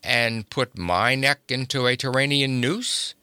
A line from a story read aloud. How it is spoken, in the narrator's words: he grunted